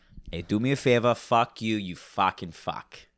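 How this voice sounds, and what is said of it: Put-on Boston accent. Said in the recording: “that's how I get into my Bostonian accent ... That was almost a mixture between Boston and Arnold.”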